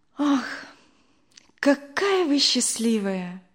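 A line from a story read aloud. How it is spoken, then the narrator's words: Sighing. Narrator (Russian): вздохнула Надя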